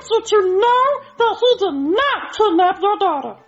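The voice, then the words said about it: Elmo puppet character voice impression. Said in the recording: “I do a pretty mean Elmo impression ... sound like Elmo ... You do a pretty good Elmo ... that just sounded like him ... it's like Elmo's right there in the room with you”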